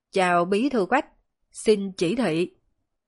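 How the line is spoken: Loud, very respectful. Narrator (Vietnamese): vô cùng cung kính, lớn tiếng quay về điện thoại nói

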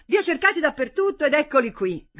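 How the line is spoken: Shouted. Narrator (Italian): gridò

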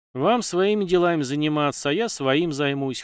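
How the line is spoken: Snorting young man. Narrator (Russian): хмыкнул парень

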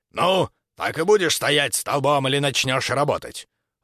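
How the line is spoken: Growling. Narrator (Russian): рыкнул Крюгер на Максимилиана

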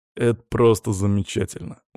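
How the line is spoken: Tired snort. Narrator (Russian): устало хмыкнул Даня

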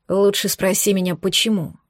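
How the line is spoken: Said quietly. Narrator (Russian): сказал он тихо

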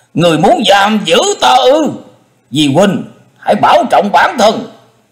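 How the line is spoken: Loud shout. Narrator (Vietnamese): hắn liền trừng mắt hét lớn

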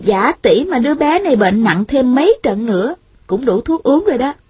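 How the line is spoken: Smiling. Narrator (Vietnamese): Thanh Thanh mỉm cười nói

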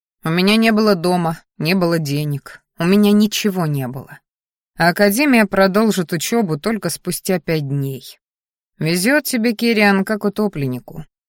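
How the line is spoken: Smirking grunt. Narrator (Russian): хмыкнул

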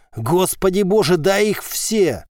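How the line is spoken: Shout. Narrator (Russian): Сима крикнул

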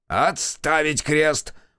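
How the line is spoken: Very loud yell. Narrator (Russian): Полищук заорал так громко, что все в кабинете вздрогнули

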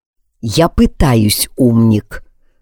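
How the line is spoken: Through gritted teeth. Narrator (Russian): процедил Алекс

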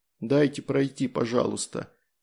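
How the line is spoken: Tearful mumble. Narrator (Russian): наконец пробормотал, в голосе отчетливо слышались подавленные слезы

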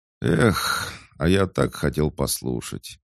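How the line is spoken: Quiet boy's sigh. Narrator (Russian): вздохнул притихший мальчишка

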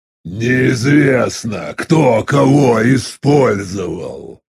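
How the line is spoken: Growling. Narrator (Russian): прорычал Вархур

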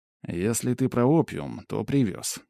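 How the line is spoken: Calm reply. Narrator (Russian): спокойно ответил я

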